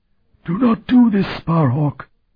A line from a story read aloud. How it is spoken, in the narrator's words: the voice was pleading now